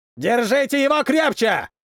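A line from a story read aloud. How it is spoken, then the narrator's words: Yelling. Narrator (Russian): орал один из них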